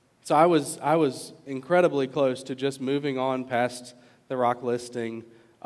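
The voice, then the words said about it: Virginia accent. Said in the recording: “a guy like me from Virginia. My silly accent that you guys all hear”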